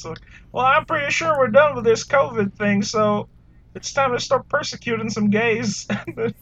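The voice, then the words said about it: Bad Texan accent impression. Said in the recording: “my bad impression of like someone in Texas”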